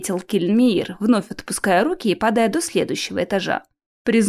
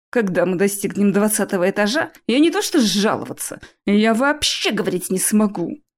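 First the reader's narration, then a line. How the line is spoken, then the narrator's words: Hissed. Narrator (Russian): прошипел я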